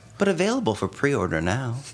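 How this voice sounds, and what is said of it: Gentle announcer voice. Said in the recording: “That was my announcer voice. ... My gentle announcer voice.”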